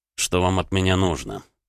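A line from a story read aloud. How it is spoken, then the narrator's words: Cold inquiry. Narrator (Russian): холодно поинтересовался Роман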